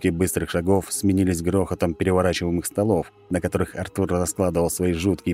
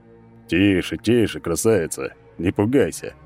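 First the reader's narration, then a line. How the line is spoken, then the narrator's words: Soothing mutter, giant. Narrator (Russian): Успокаивающе забормотал гигантский силуэт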